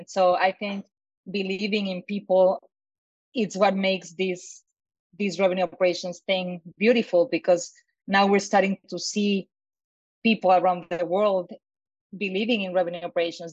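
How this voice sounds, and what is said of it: Strong non-native accent. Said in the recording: “at least 4 different accents, including mine, that it's a really strong accent”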